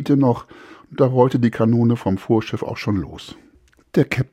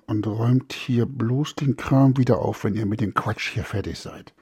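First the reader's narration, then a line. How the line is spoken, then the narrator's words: Said quietly. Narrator (German): Noch beim Weggehen sagte er leise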